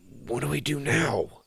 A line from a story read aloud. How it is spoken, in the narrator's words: Sawyer whispered